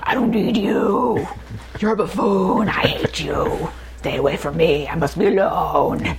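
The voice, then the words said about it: Batman impression voice. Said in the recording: “I love your Batman impersonation ... doing that voice”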